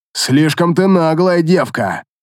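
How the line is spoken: Snarled. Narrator (Russian): рыкнул Баргус

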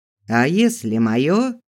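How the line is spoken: Short chuckle. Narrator (Russian): хохотнул он

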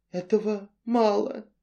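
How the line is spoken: Even quieter whisper. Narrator (Russian): еще тише прошептал тот

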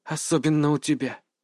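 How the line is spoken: Whisper heard inside heads. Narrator (Russian): прошептала Лейла, и ее голос прозвучал так, будто раздался сразу в наших головах

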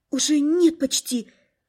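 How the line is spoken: Frightened whisper. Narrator (Russian): испуганно прошептала я

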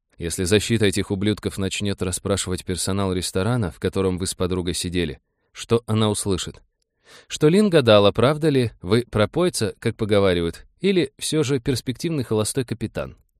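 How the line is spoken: Quiet. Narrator (Russian): Грэм говорил тихо, чтобы слышала только Ракша

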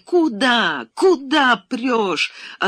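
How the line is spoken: Hoarse shouting. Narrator (Russian): охриплым голосом кричала она

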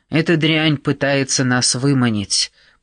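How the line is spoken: Grumbling. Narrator (Russian): проворчал Костас

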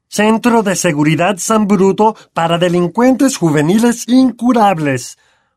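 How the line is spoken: Bellowing. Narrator (Spanish): bramó tío Vernon

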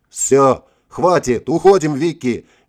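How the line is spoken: Yelling. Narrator (Russian): заорал Игорь

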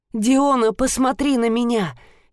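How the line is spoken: Choked, near sobbing. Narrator (Russian): Едва не навзрыд выдавил Энцелад

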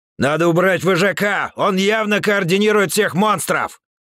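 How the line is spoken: Shouted, bear. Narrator (Russian): крикнул медведь

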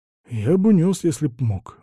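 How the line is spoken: Sighing. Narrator (Russian): вздохнул Василий

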